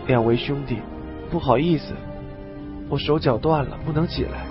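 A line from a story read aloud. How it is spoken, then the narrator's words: Low, injured voice. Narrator (Chinese): 老吴 他还站不起来，低声说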